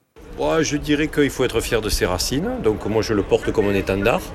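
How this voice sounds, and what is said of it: Southern French accent. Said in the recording (French): “vous avez l'accent que j'ai ... l'accent du Sud”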